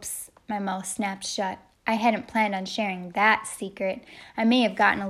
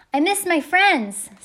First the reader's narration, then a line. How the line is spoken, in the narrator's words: shouted